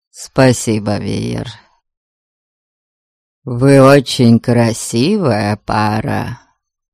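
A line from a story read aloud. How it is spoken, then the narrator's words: Calm. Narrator (Russian): спокойно сказал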